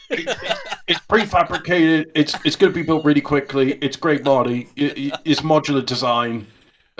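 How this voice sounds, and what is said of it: Imitates another person's voice. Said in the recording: “Why'd you just do Trump?”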